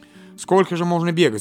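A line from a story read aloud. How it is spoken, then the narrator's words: Plain. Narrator (Russian): сказала тетя Зина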